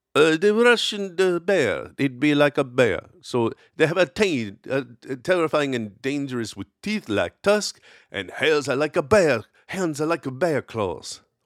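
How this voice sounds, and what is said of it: Put-on Russian accent, poorly done. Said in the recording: “let me see if I can do a Russian accent ... tell me how awful and offensive that was”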